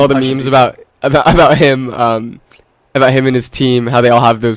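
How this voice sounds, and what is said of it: Usual voice. Nothing is said of it.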